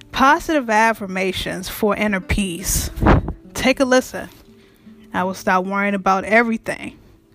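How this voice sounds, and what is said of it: Raspy voice. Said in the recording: “my voice is a little bit raspy right now”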